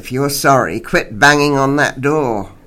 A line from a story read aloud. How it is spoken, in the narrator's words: I growled